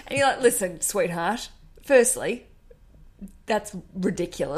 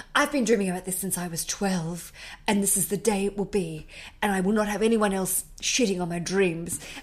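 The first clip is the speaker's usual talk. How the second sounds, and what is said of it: Impersonates a demanding bride character. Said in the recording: “I don't know who this woman is I'm impersonating ... She sounds like a fuckhead”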